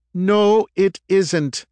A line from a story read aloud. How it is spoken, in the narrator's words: yelled Veek